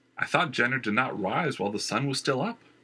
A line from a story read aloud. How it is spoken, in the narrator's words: Christian volunteered